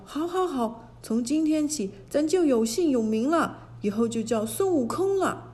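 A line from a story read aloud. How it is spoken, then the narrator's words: Overjoyed shout. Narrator (Chinese): 美猴王心里乐开了花，叫道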